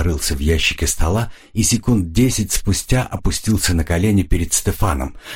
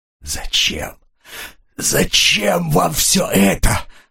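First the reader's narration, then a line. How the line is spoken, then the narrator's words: Moaning. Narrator (Russian): простонал Стефан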